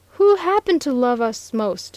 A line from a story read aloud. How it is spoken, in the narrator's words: he repeated wildly